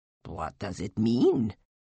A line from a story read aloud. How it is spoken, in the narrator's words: She muttered